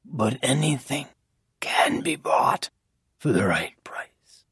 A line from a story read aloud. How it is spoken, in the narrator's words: said softly